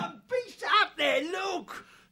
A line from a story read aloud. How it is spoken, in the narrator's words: The outlaw yelled out a challenge